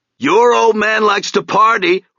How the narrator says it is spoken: Rex called out hoarsely

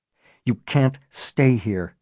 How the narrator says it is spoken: he said through gritted teeth

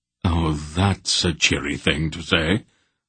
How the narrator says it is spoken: Silk observed dryly from nearby

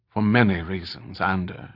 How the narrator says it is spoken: he said softly

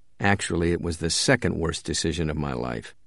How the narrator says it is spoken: He said quietly to himself

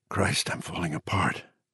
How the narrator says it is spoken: he whispered

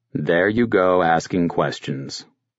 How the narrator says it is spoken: the psychiatrist interrupted, speaking in a condescending tone of voice

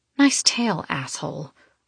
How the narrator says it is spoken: I mutter

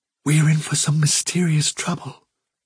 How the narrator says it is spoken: whispered Fiver

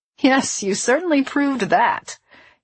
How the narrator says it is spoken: laughed

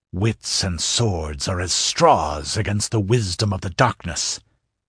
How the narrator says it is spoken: growled the Stygian

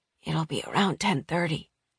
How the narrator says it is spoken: she rasped

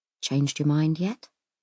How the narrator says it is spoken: Simon says quietly

